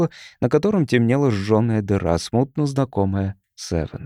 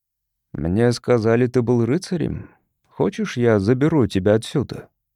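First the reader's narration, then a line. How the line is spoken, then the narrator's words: Calm speech. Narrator (Russian): спокойно произнес гость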